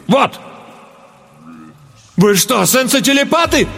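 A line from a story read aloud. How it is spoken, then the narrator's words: Horrified exclamation. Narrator (Russian): С ужасом воскликнул я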